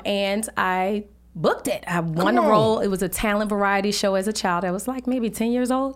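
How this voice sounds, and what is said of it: New Orleans accent. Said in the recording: “Y'all can hear it in her voice, man. ... I'm originally from New Orleans, Louisiana.”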